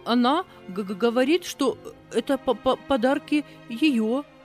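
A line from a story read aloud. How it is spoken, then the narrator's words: Stammering. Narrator (Russian): заикаясь, проговорила служанка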